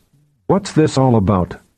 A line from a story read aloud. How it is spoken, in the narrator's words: asked in a steely tone